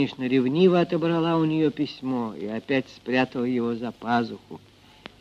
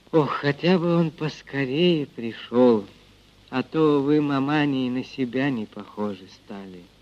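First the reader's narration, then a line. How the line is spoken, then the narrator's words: Smiling sigh. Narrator (Russian): Дуняшка улыбнулась, вздохнула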